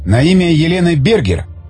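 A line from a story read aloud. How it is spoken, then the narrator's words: Exclaiming. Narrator (Russian): воскликнул Тигран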